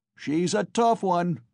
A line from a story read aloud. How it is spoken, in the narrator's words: was shouted in the crowd